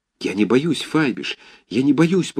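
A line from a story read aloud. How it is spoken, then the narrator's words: Pleading whisper. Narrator (Russian): повторил умоляющим шепотом Цирельман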